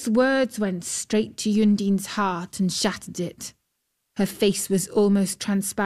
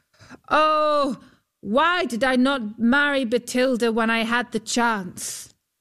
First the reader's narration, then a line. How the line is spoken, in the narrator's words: Huldbrand called out